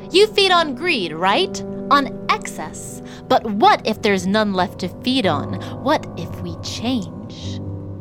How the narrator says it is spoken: Sam called out

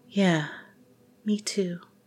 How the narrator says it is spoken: she whispered

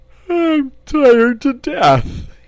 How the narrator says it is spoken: he wailed

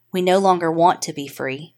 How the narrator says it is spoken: in a calm voice response

